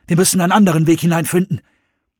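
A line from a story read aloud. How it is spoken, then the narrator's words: Called out. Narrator (German): rief Jones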